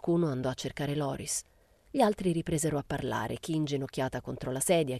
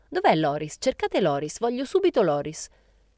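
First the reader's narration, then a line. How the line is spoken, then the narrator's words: Exclaimed. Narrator (Italian): esclamò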